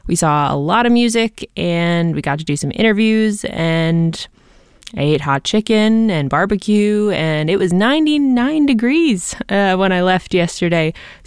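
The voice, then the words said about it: Hoarse, partly lost voice. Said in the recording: “You can probably hear in my voice that I kind of lost my voice.”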